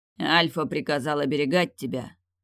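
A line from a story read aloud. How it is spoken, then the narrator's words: Growled explanation. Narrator (Russian): рыкнул он, объясняясь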